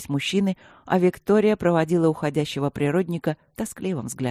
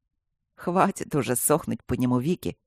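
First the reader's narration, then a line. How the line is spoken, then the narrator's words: Smirking snort. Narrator (Russian): хмыкнул Мартин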